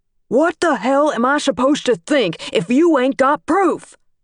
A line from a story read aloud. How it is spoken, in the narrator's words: Dad was still shouting